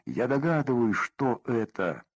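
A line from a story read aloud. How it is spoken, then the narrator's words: Plain. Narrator (Russian): сказал Хиринский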